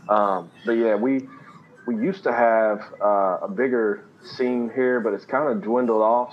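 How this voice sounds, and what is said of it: Kentucky accent. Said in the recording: “Christian rapper from Kentucky, which my accent gives me away when I talk”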